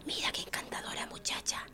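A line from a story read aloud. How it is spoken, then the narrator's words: Whispered in ear. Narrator (Spanish): susurrando los oídos, le dijo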